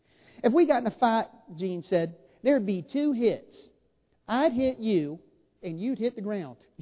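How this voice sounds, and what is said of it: Put-on Southern drawl. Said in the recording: “I'm doing my best Southern drawl here”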